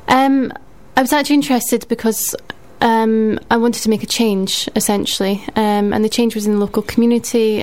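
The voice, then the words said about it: Non-Bristol, Edinburgh accent. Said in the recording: “that's not a Bristol accent, is it? ... I'm originally from Edinburgh.”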